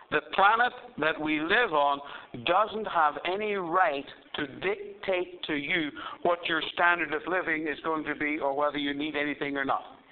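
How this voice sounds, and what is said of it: Accent often mistaken for Canadian. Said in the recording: “I'm Irish by birth, Australian by choice, and most people think I'm Canadian. And that's true, just because of my accent.”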